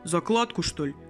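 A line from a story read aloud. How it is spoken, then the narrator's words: Deep bass male voice. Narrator (Russian): Басом ответил мужик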